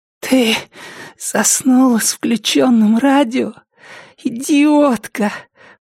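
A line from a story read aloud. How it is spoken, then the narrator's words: Hoarse rasp. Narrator (Russian): прохрипела Триша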